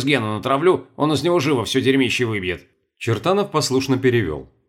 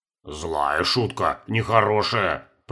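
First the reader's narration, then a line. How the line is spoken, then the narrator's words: Grumbling warrior. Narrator (Russian): пробурчал один из воинов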